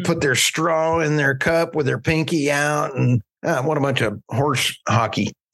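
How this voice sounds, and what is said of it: Oklahoma accent. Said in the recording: “my Oklahoma accent would just butcher it”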